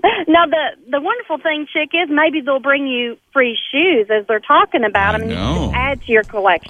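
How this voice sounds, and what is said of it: Kentucky accent. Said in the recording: “I love that accent ... It's a wonderful Kentucky accent.”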